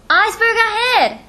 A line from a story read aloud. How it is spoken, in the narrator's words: He shouted